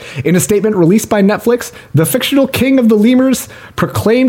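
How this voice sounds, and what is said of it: Usual voice. Nothing is said of it.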